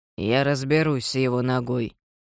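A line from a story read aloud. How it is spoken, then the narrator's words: Reluctant grumble. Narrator (Russian): неохотно проворчал мистер Вебер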